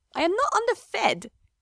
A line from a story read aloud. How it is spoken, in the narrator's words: Orlando said, and they both burst out laughing